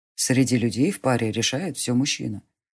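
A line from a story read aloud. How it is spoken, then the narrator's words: Calm. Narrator (Russian): спокойно сказал маг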